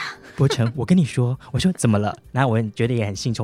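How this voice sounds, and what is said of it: Usual voice. Nothing is said of it.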